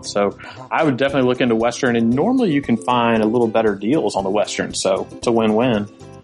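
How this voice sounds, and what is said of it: Southern US (Tennessee) accent. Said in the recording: “your southern accent. ... That's the Tennessee accent.”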